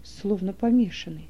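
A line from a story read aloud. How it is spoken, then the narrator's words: Whisper. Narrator (Russian): шепнул Иоханан Малху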